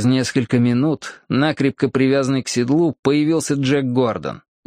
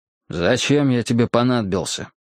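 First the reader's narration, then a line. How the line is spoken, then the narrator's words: Gloomy question. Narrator (Russian): мрачно спросил его я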